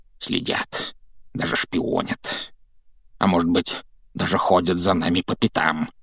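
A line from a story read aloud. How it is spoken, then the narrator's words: Near-hysterical mutter. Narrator (Russian): пробормотал дядя Вернон, который, кажется, был на грани помешательства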